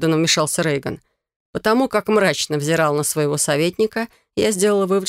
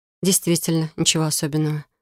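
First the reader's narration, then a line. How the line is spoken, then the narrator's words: Mutter. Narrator (Russian): пробормотала я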